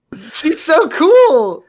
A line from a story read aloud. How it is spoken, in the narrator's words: I laughed at my own joke